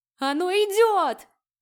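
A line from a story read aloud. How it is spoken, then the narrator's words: Boy's howl running past. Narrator (Russian): взвыл пробегающий мимо парнишка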